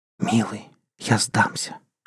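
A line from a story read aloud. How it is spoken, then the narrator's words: Whisper. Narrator (Russian): шептала Кристина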